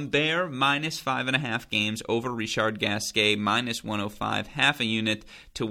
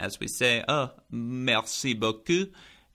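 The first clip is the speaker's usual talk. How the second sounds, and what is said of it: Put-on French accent. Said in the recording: “I'm sorry for the French accent.”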